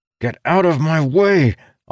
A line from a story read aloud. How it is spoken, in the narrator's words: shouted through clenched teeth